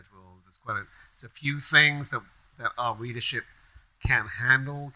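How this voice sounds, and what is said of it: A badly done put-on accent. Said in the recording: “It's a terrible accent. Just stop.”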